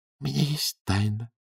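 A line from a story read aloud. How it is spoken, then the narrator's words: Quiet. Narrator (Russian): тихо сказала Клавдия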